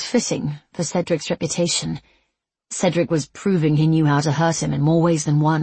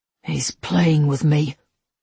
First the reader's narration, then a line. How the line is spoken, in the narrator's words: Levi choked